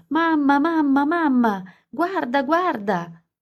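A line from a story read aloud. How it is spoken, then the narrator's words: Shouting. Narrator (Italian): urlando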